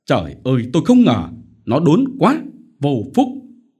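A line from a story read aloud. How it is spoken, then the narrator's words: Angry snap. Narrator (Vietnamese): Ông Phổ dậm chân gắt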